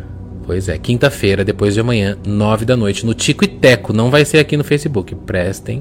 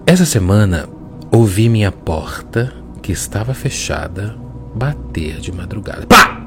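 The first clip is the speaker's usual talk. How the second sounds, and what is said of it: Wheezy asthmatic reading voice. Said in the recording (Portuguese): “Vou ler com voz de asma”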